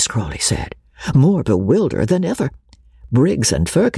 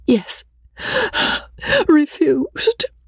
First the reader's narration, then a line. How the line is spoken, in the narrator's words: Rebecca answered tearfully